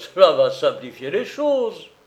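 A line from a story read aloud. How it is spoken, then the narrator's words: Sighing. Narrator (French): La prêteuse à gages soupirait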